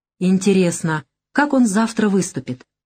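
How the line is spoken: Thoughtful general. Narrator (Russian): задумчиво произнес генерал

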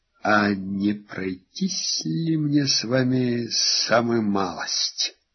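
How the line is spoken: Whispered. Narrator (Russian): Ален прошептал

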